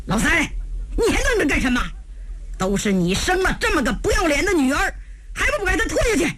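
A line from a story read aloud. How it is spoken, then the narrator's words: Furious. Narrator (Chinese): 温芳达怒火中烧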